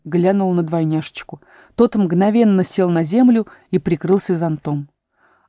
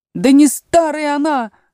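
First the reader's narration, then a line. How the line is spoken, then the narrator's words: Frenzied yell. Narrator (Russian): завопил двойнюшечка, приходя в совершеннейшее исступление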